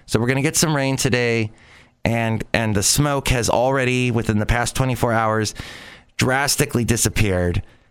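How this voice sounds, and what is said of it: Slightly raspy voice. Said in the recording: “i maybe i'm a little raspy from going through two and a half weeks of that smoke”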